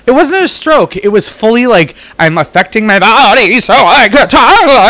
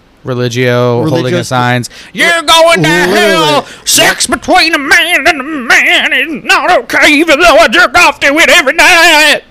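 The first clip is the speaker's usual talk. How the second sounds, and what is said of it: Exaggerated put-on Southern accent. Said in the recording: “I had to shake to get the southern accent, like the real fat southern accent sounding.”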